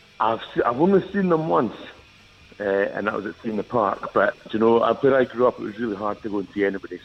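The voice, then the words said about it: Regional accent from Perth area. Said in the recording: “by the sound of his accent, I think he might be somebody from not far from where I grew up”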